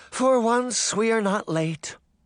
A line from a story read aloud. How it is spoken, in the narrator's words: the white rabbit sighed with relief